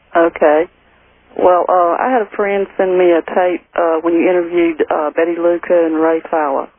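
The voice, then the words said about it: Southern US accent, Georgia. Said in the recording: “sounds pretty southern to me ... you've got a southern belle accent”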